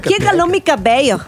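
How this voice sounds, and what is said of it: Attempted Yucatecan accent, sounds Colombian. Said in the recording (Spanish): “y el acento yucateca... ¿Cómo te salió? ¿Cómo fue?... Es como yucateco de Bogotá.”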